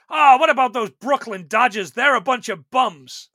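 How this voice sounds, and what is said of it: Put-on Brooklyn accent. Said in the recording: “With his Brooklyn accent”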